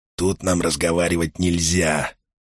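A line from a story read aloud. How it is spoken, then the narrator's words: Hoarse whisper. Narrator (Russian): сипло прошептал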